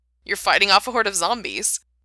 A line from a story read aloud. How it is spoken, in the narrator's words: He giggled, and the sound was so open and bright